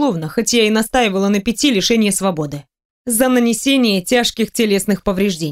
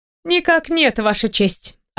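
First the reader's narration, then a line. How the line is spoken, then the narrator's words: Calm. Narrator (Russian): отвечаю спокойно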